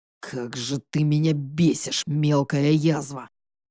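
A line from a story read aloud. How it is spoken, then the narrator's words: Growled through teeth. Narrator (Russian): Прорычал он сквозь зубы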